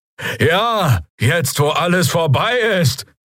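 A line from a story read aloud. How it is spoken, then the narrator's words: Draxyl shouting from crowd. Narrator (German): rief jemand aus den Reihen der Bürger, der Stimme nach ein Draxyl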